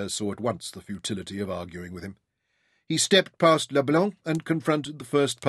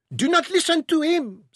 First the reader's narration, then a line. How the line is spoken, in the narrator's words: squealed Leblanc